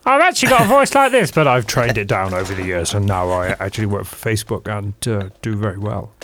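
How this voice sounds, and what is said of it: Imitates another person's voice. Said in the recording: “You've trained it down like Nick Clegg.”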